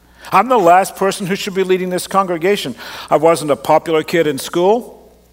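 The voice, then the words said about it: Unusual accent, mid-range timbre. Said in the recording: “I've got this strange accent that I know some people find confusing ... I'm from Australia, but you don't really sound like you're Australian ... I grew up in Canada ... you got a timbre to your voice that is difficult to work with, because it's neither high nor low, it's kind of in a mid-range”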